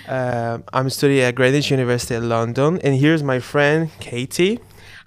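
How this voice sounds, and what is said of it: Brazilian accent in English. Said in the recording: “I'm originally from Brazil. Sorry for my accent.”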